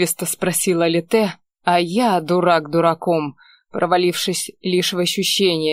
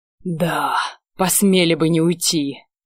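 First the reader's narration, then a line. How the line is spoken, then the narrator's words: Barked through ragged breaths. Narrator (Russian): практически пролаял, сквозь рваные вдохи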